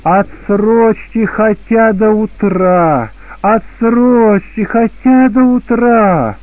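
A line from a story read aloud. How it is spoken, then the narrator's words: Loud desperate plea. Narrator (Russian): отчаялся в возможности освободиться от них, то начал взывать громко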